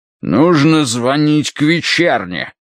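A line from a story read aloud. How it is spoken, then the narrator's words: Barked. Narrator (Russian): рявкнул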